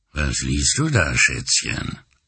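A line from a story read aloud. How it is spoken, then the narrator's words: Deep voice. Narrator (German): fragte mit tiefer Stimme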